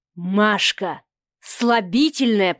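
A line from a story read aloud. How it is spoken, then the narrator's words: Hissed. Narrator (Russian): прошипел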